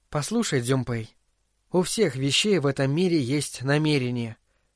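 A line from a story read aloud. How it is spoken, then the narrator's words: Quiet, secretive tone. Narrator (Russian): тихо сказала она, словно открывая тайну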